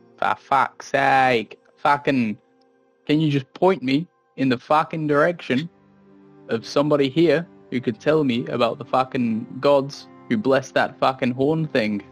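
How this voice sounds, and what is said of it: Hard-to-understand goblin dialect. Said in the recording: “I struggle sometimes to understand your dialect... Can you try speaking slower?”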